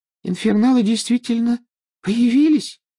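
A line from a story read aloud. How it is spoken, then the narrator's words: Thin little voice asking. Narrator (Russian): тоненьким голоском спросила Парвати Патил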